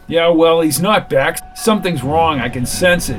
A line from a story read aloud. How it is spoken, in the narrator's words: yelled McGee as he angrily moved away